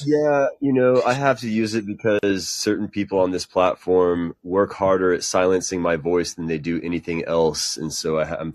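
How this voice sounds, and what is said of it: Texas surfer-hippie radio voice. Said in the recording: “you have such a nice voice. It's a good radio voice ... a great voice ... it's slightly sexy ... I sound like a surfer hippie, like a Texas surfer hippie”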